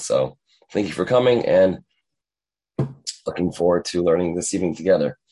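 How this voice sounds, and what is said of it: Raspy voice from a cold. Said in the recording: “I decided to have a morning voice... I have a little bit of a cold, so that's why I have this voice... I still have a lingering, raspy voice of sorts”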